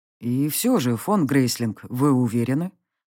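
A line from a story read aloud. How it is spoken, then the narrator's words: Grim pressing ruler. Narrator (Russian): Мрачно продолжал давить правитель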